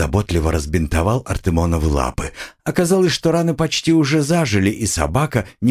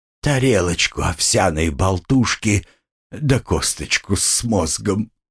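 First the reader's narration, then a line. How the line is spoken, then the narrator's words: Moaning. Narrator (Russian): простонал Артемон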